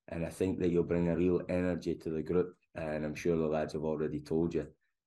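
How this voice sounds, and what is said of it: Strong regional accent. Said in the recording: “the lads have been telling me they thought my accent was strong”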